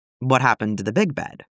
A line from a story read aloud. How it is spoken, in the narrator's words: he asked